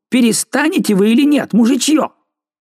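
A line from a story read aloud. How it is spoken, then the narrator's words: Abbot shouting. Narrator (Russian): Аббат крикнул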